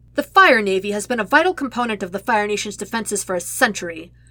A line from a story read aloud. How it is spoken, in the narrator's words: Commander Jaoku snaps